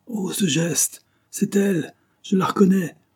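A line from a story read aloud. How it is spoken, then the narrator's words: Shocked pale exclamation. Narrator (French): s'écria monsieur de Arotegui en se dressant livide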